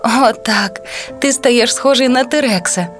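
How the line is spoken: Laughing mother. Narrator (Ukrainian): засміялася мама

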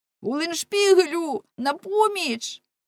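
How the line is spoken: Shouted. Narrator (Ukrainian): крикнув

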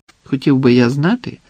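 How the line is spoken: Even voice. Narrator (Ukrainian): рівним голосом продовжив Маджид

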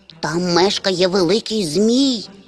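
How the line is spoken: Barely audible whisper, tiny creature. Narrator (Ukrainian): ледь чутно прошепотіло крихітне звірятко

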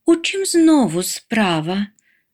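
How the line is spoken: Weary sigh, mother. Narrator (Ukrainian): вже вкотре зітхнула мама

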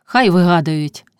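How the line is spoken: Replied with heavy sigh. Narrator (Ukrainian): зітхнувши важко, отказала Марина

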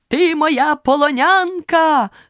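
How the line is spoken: Knight shouting. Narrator (Ukrainian): крикнув лицар

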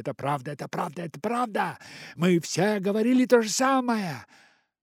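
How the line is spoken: Monkeys shouting together. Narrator (Russian): все остальные обезьяны кричали

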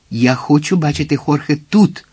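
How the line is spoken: Exclaiming. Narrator (Ukrainian): вигукнув він

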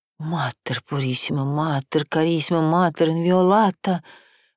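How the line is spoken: Muttering nun. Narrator (Russian): бормотала монахиня

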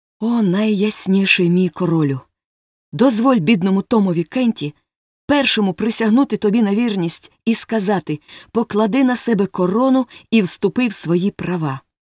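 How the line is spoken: Joyful exclamation. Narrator (Ukrainian): Том радісно вигукнув

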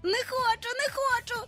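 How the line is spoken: Shrieking. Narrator (Ukrainian): верещав Майкл

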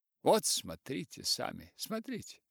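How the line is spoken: Triumphant exclamation. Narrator (Russian): воскликнул он торжествующим тоном

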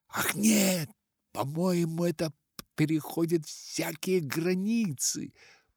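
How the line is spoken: Barely audible wheeze. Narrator (Russian): Прохрипел он едва слышно

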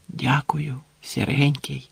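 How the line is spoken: Whisper. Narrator (Ukrainian): прошепотів

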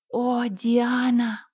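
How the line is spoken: Sighing. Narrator (Russian): вздохнула Энн

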